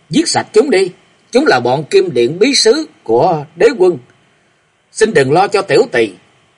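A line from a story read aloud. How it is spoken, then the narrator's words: Sudden howl. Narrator (Vietnamese): Lục Tĩnh bỗng gào lên nói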